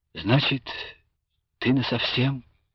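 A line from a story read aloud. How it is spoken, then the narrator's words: Sad question. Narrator (Russian): печально спрашивал Любаша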